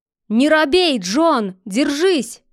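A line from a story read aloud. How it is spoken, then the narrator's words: Shout. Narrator (Russian): крикнул Мук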